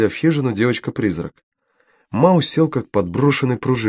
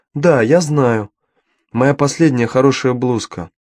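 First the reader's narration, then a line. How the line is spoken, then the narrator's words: Plain. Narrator (Russian): ответила Дафна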